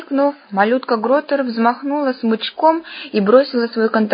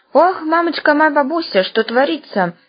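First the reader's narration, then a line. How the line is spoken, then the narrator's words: Astonished exclamation. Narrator (Russian): пораженно воскликнул Бабьягун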